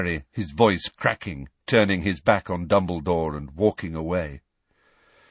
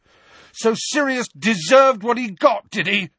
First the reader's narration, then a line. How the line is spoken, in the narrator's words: Harry yelled